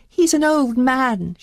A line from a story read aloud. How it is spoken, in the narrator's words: she begged